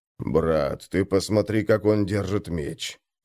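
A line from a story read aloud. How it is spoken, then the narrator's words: Worried muttering. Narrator (Russian): пробормотал обеспокоенный Крум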